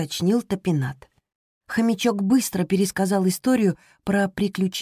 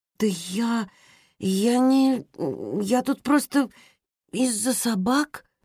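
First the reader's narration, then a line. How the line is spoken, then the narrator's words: Surprised mumble. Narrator (Russian): промямлила Роза, потому что была слишком удивлена необычным появлением девочки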